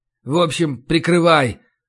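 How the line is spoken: Gruff grumble. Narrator (Russian): буркнул я

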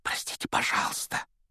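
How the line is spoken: Whisper. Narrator (Russian): прошептал Гарри

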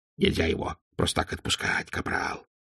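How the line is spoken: Hissed. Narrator (Russian): прошипел Колон

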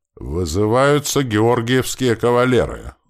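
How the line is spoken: Solemn roar. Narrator (Russian): Торжественным голосом проревел сотник

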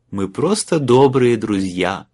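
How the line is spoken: Falsely sung, fake laugh. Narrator (Russian): фальшиво пропел Майлз и не менее фальшиво рассмеялся

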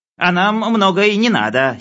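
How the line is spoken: Giggling. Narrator (Russian): хихикнул Хлебоводов

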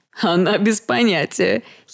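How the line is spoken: Giggling woman. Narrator (Russian): хихикнула брюнетка с формами

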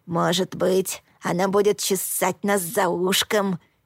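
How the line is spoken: Soft purr. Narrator (Russian): тихо мурлыкнул Блуд

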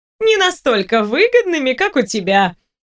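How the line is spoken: Cheerful reply. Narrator (Russian): весело отозвалась собеседница

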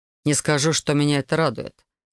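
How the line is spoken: Grumbling mutter. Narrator (Russian): буркнул Себастьян

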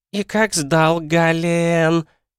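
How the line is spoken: Drawling, pouting. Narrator (Russian): аж протянула она, отклячив губищу

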